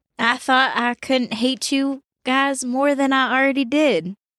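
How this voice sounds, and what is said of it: Southern American accent. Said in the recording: “I'm the only one with a southern accent”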